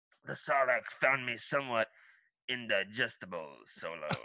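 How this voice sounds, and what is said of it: Gruff movie character voice. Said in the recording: “let me see if I can do it in a Boba Fett voice.”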